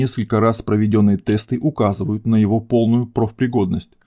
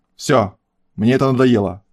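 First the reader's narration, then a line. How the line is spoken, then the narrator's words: Barked. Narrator (Russian): рявкнул координатор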